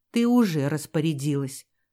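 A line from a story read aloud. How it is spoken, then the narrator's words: Gloomy remark. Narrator (Russian): мрачно заметил Рудольф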